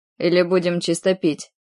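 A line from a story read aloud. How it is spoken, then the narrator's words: Snort, clarifying question. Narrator (Russian): Хмыкнула, на всякий случай уточнила еще раз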